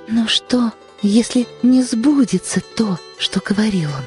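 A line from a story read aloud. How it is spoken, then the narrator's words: Doubtful whisper. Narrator (Russian): шептала она с каким-то выражением сомнения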